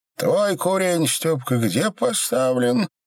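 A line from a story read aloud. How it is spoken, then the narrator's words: Wheezing old man. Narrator (Russian): просипел дед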